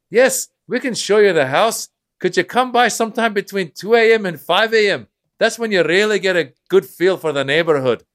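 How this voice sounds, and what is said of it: Put-on Irish accent. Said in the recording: “an Irish accent”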